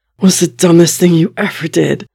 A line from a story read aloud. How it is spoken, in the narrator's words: Bucky pronounces at last, still sounding wheezy